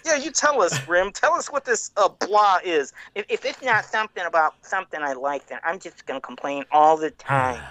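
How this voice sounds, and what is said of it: Nerdy guy character voice. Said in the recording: “When ... talks like that, picture he's got like you know glasses that keep falling down his nose and like braces ... do the voice. I'm thinking just a typical kind of maybe nerdy guy ... a nerd impression from Saved by the Bell”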